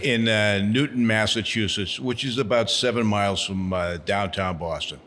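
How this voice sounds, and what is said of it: Massachusetts accent, somewhat toned down. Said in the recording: “hearing your accent ... Well, I'm trying to tone it down.”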